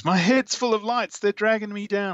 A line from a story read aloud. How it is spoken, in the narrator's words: Jane screams